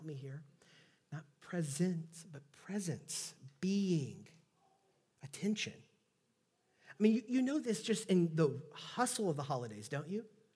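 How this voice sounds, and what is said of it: Southeast Texas accent. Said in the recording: “my Southeast Texas accent”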